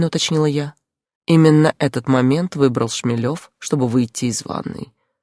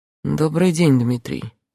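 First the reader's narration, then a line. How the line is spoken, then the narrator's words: Calm. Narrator (Russian): спокойно произнес мой Андрей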